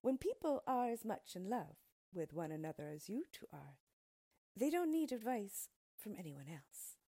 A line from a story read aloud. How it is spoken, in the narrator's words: answered, smiling kindly